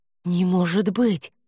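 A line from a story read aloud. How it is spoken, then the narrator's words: Breathless exhale. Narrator (Russian): выдохнула Хести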